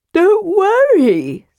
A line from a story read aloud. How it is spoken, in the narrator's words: said Tass, yawning